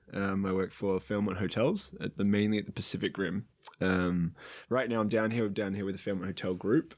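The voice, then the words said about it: Slight Australian accent. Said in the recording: “I have a bit of Australian accent,”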